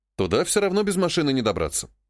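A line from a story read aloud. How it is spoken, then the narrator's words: Snorting chuckle. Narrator (Russian): хмыкнул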